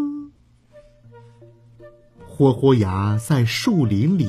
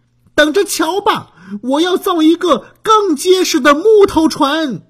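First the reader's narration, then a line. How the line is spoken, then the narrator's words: Loud shout. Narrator (Chinese): 豁豁牙 回头大声喊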